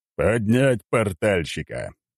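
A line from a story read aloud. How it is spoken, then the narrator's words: Commander's growled order. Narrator (Russian): рыкнул командир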